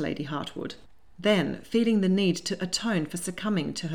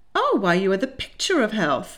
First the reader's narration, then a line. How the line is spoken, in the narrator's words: exclaimed Lady Hartwood